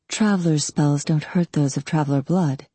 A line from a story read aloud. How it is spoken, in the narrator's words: she said in a low voice that wouldn't carry to others in the store